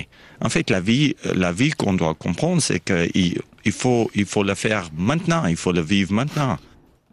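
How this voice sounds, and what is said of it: South African accent with Vaud tinge. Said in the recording (French): “il avait un petit point d'accent vaudois au milieu de son accent ... Anglais d'Afrique du Sud.”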